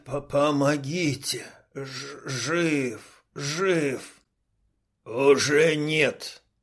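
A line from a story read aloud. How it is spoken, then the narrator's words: Growl. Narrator (Russian): Рыкнул кардан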